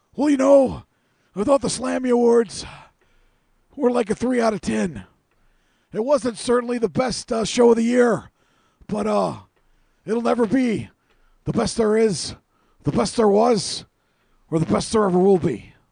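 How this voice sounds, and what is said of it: Bret Hart impression. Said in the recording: “my impersonation of Bret Hart ... I've never heard you do Bret Hart before. That was pretty goddamn good.”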